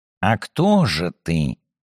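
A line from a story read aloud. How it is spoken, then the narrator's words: Soft question. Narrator (Russian): мягко спросил Сумароков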